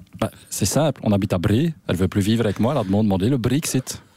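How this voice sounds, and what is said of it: Put-on Flemish accent in French. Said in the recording (French): “un Flamand ... je crains l'accent”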